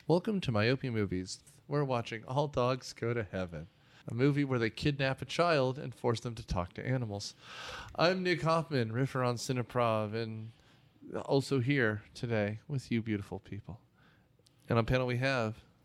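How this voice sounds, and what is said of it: Calm NPR-style radio voice. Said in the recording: “NPR voice ... this chilled me out”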